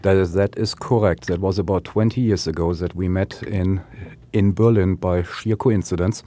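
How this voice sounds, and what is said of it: Heavy German accent. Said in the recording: “that is a heavy German accent we hear ... It is surely a heavy German accent.”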